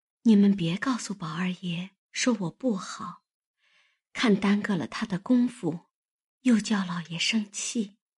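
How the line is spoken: Hesitant, sighing. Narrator (Chinese): 黛玉迟了半日，叹了一声，才说道

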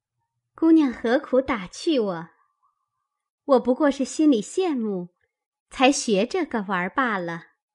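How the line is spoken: Laughing. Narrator (Chinese): 香菱笑道

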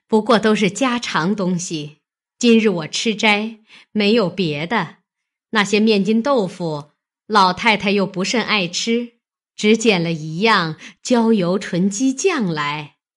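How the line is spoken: Laughing. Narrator (Chinese): 王夫人笑道

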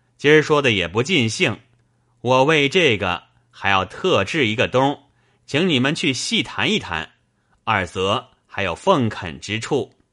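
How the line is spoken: Laughing. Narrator (Chinese): 冯子英笑道

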